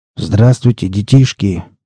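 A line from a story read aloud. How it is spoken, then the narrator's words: Grumbled through beard. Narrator (Russian): проворчал он сквозь бороду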